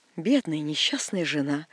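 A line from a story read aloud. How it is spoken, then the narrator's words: Sigh from a colonel's wife. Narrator (Russian): вздохнула полковница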